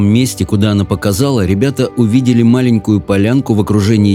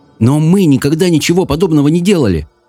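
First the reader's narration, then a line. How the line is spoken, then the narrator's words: Exclaimed. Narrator (Russian): воскликнул Саймон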